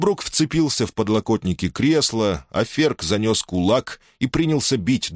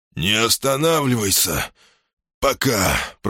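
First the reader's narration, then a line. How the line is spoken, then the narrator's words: Hoarse pained rasp. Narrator (Russian): прохрипел он, превозмогая боль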